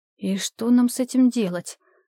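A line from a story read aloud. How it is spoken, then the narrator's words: Bewildered question. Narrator (Russian): задала она вопрос растерянным голосом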